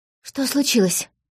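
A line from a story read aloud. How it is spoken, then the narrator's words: Breathless. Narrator (Russian): выдохнула она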